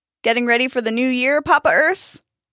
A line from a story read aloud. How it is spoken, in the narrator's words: one farmer called out with a wink